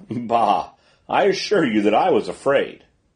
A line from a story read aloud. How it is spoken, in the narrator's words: The Commandant laughed and answered